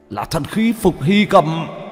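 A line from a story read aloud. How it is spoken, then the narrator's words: Startled exclamation. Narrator (Vietnamese): Diêm Vương thần sắc hồ biến, kêu lên một tiếng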